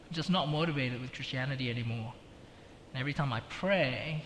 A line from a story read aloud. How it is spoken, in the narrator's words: said